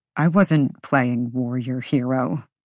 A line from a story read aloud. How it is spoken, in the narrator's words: he muttered